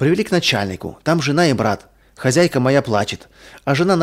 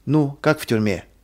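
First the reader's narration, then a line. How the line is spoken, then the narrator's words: Plain, superior. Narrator (Russian): спросил начальник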